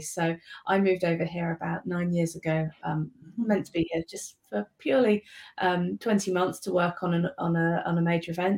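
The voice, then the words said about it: British accent. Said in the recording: “As you can tell from my accent, probably I'm originally from the UK.”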